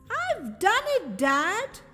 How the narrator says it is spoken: He cried happily

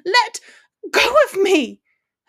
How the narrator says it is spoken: Hermione screamed with a surge of anger

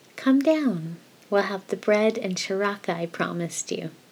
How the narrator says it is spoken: Aziraphale said

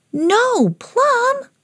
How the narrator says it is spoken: cried Gracie

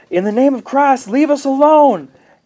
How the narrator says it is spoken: Tanner's brother yells

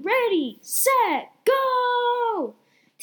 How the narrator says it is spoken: My brother was shouting

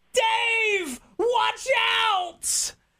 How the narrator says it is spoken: his left tackle turned around and yelled

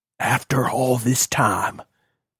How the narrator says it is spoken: he whispered

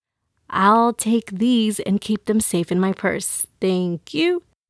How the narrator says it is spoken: Mama whispered

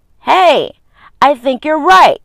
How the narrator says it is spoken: exclaimed

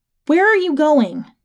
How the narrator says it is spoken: She shouted after me

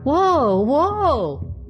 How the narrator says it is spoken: cried Walter, frightened half to death

